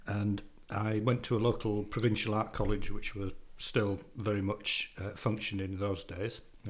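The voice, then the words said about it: Yorkshire English accent. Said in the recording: “from your accent, you're a long way from home ... I come from a town called Morley, which is near Leeds in Yorkshire”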